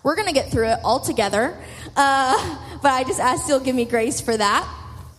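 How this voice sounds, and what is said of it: Voice cutting in and out. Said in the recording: “my allergies have been horrible recently. So my voice is kind of going in and out.”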